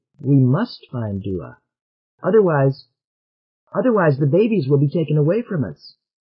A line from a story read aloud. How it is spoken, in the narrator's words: said Odine urgently